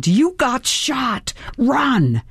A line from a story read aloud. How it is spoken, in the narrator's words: my brain screamed